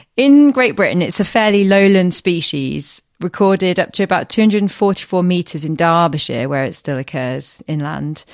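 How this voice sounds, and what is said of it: Attempted Derbyshire accent. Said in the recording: “Was that supposed to be a Derbyshire accent? ... I think so.”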